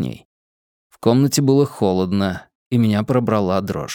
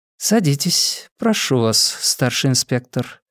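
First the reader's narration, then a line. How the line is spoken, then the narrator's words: Soft courteous voice. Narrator (Russian): произнесла Клеменси тихим любезным голосом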